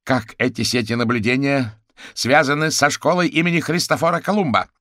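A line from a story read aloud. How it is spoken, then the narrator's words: Shouting. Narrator (Russian): Теперь гусеница уже кричал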